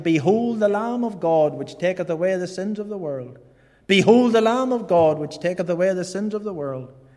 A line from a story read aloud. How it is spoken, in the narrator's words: someone shouting